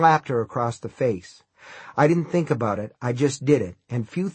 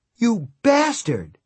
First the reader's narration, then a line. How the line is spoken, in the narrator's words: she cried